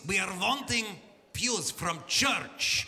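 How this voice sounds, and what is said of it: Stereotypical thick Russian accent. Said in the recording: “this thickly Russian-accented voice ... the most stereotypical Russian accent you've ever heard”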